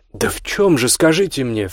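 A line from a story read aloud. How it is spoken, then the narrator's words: Exclaimed. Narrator (Russian): воскликнула Оля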